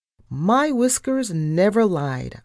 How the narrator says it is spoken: I snapped

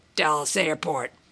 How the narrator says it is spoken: Mac said crossly

